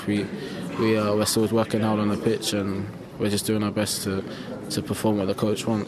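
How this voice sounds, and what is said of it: South London accent. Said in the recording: “the London accent, South London accent”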